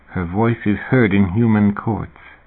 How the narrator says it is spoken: David murmured

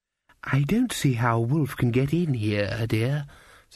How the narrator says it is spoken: said the grandmother kindly

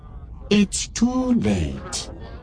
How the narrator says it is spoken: Greedo said, a little too happily for Han's liking

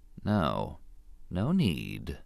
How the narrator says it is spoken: he said softly

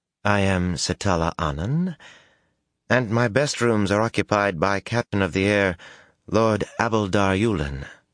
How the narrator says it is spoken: Mistress Anun said calmly, unintimidated by Sojin or blood

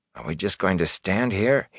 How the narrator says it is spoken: He mumbled

